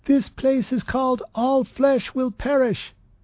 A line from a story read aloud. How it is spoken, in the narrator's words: Trep yelled above the noise